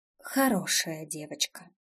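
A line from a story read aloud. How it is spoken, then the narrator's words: Soft drawl. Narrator (Russian): мягко протянул в ответ Дарк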